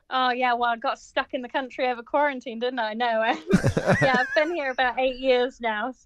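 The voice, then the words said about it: Quaint British accent. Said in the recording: “you have the most wonderfully quaint British accent”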